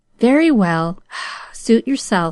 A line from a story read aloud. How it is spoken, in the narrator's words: sighed Aunt Polly